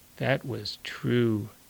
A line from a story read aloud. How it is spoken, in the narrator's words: Daniel said softly